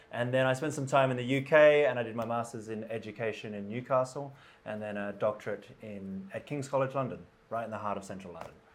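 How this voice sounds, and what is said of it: Australian English accent. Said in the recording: “as you'll pick up from the accent, I grew up in Australia”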